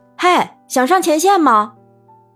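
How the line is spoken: Sudden call from behind. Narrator (Chinese): 突然身后听到叫声

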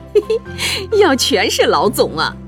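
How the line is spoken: Quiet giggling. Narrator (Chinese): 周国正媳妇儿又小声嬉笑了一句

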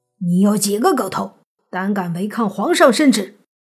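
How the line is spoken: Soldier roaring. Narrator (Chinese): 兵丁 吼道

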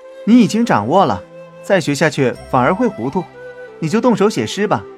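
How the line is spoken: Cheerful, laughing. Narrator (Chinese): 宝玉笑着对香菱说

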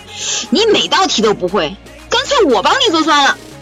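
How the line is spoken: Angry. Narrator (Chinese): 妈妈怒了

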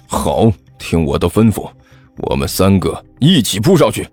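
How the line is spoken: Low voice, cat. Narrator (Chinese): 喵，猫老师低声说道

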